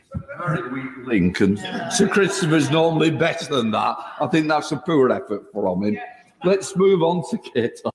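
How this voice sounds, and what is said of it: Deep Cockney accent. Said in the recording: “That's some deep literally, Cockney accent”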